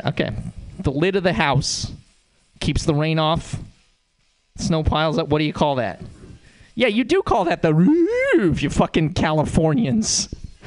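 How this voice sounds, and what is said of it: Montana accent. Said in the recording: “The way that I know I'm from Montana is that I have an accent.”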